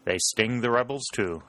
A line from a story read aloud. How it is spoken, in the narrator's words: said Pennington